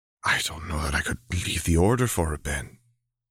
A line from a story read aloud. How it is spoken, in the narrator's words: Shakti says quietly, shaken